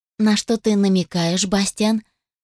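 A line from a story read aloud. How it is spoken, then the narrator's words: Affectionate question. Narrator (Russian): поинтересовалась ласково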